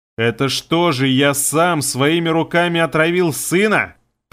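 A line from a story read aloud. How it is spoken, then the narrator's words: Roaring. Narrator (Russian): проревел Искин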